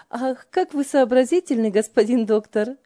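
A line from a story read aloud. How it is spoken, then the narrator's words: Hearty laughing. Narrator (Russian): от души смеялась Ева над братом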